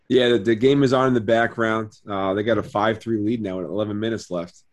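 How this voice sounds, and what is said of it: Strained, slightly hoarse voice. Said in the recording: “That's why my voice is a little bit weird.”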